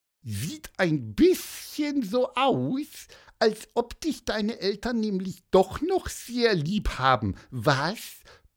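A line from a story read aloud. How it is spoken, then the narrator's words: Cheerful squeak. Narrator (German): piepste Pieper fröhlich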